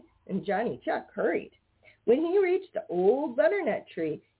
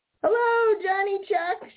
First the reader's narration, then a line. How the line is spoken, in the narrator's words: shouted Peter Rabbit